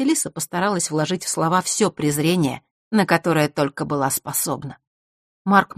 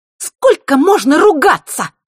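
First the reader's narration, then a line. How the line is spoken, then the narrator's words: Piercing shriek. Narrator (Russian): Пронзительно взвизгнула она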